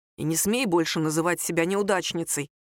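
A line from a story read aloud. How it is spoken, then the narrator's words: Quiet. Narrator (Russian): тихо сказал Рома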